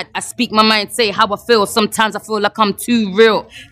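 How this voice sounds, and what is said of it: Rapping with a foreign accent. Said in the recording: “with the accent, it gives it that little extra zing ... because you're from overseas, it's a little different”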